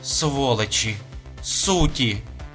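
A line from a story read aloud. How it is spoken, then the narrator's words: Muttering. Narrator (Russian): бормотала она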